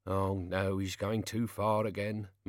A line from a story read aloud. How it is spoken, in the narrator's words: muttered Albert under his breath